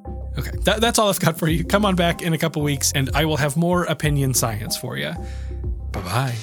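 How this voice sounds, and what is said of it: Stuffed-up, congested voice. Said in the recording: “my voice isn't all the way there ... I'm stuffed up or I've recently lost my voice ... Like this one, like right now.”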